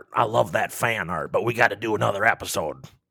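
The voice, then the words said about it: Imitates another person's voice. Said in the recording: “pretty good impression of him. I think he'd be proud”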